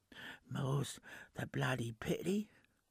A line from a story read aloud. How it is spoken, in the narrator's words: replied Lord Rancid in a feeble whisper